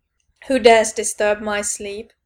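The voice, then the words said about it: Booming grumpy wizard voice. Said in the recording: “I thundered in my best grumpy wizard voice,”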